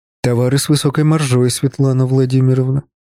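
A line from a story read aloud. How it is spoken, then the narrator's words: Plain. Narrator (Russian): ответил я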